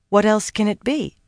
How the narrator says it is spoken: asked calmly

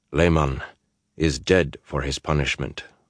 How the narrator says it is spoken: said in a flat voice

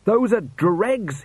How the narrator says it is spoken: he shouted

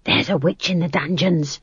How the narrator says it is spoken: someone whispered to Granny

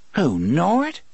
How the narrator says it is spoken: She laughed, affecting annoyance to cover her confusion

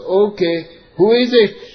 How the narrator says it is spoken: the father shouts

